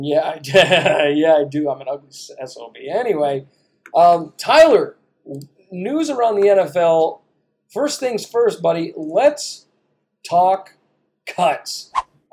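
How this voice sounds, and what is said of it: Rough, raspy voice. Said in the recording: “I don't have a great radio voice right now. I sound like I've been smoking cigarettes for 5 weeks”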